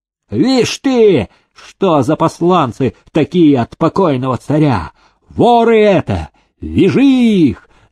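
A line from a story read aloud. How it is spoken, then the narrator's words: Angry clerk yelling. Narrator (Russian): заорал приказчик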